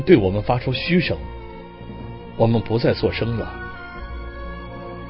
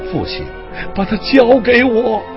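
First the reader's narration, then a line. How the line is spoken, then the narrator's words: Sobbing loudly. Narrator (Chinese): 我再也忍不住，大声地哭了起来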